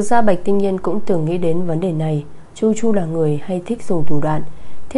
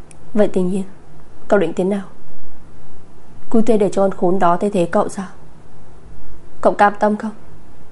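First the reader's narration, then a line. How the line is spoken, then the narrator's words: Helpless sigh. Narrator (Vietnamese): Tô Tích bất lực thở dài một hơi rồi nói với Bạch Tinh Nhiên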